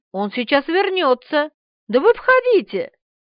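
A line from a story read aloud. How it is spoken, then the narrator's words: Joyful, from above. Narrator (Russian): радостно ответили сверху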